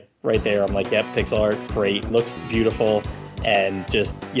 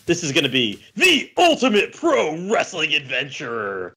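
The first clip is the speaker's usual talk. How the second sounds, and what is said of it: Loud wrestling announcer voice. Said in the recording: “in my wrestling voice with what they put in all caps.”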